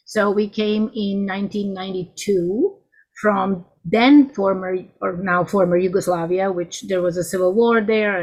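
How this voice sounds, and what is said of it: Non-native English accent. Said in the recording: “by my accent, could also conclude I wasn't born in the United States”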